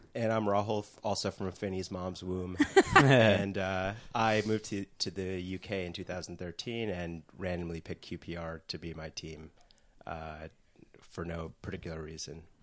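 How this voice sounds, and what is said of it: Slight American accent. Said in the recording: “we can sense a bit of an accent there. So did you move here from the States?”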